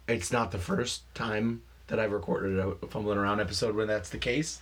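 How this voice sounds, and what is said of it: Slightly hoarse voice. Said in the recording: “My voice is a little hoarse today ... listen to my voice ... I went hoarse”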